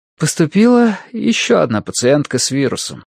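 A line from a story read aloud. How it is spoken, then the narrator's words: Sighing. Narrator (Russian): вздохнула Мэри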